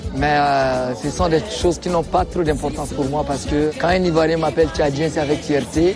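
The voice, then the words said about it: Chadian-accented French. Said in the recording (French): “de par mon accent, on sait que c'est un Tchadien”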